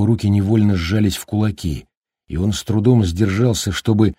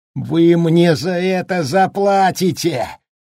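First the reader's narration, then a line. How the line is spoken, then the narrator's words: Howling. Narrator (Russian): взвыл он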